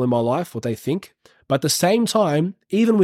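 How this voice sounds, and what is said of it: Usual voice. Nothing is said of it.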